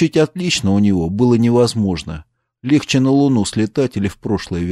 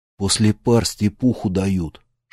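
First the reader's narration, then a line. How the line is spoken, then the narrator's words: Whispered. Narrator (Russian): шепнул Курт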